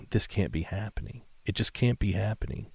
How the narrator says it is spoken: whispering

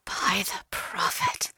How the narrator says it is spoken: she whispered

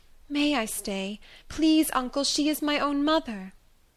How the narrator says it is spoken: she said pleadingly

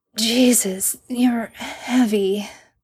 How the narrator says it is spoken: Sam grunts and wheezes out

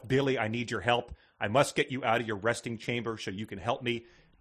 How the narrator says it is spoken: She whispered to herself

